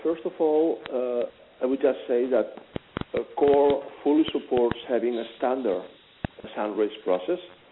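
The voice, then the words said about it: Noticeable foreign accent. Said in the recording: “as you'll probably recognize by the accent”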